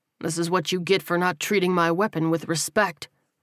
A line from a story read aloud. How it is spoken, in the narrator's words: Terrell said coldly